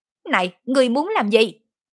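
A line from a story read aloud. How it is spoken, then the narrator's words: Shouting. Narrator (Vietnamese): hét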